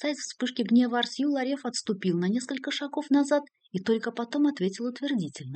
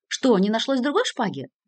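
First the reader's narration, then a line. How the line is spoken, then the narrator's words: Shouting. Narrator (Russian): закричал на него Артью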